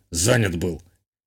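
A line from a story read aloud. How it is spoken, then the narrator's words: Grumbled. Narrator (Russian): буркнул тот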